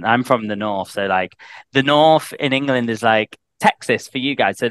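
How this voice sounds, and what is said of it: Northern English accent. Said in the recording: “It still has the little English accent in it too ... I've got a Northern English accent ... I've got a Northern accent”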